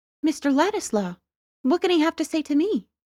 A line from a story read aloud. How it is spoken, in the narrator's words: she exclaimed in a tone of pleased surprise